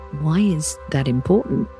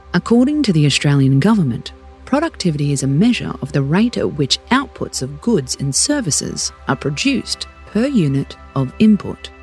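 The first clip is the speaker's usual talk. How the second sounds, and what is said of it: Formal official-sounding voice. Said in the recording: “I'll put on my official voice.”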